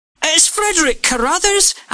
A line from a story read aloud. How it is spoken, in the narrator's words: Angus shouted